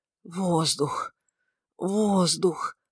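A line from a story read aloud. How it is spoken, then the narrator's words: Moaning. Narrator (Russian): стонал он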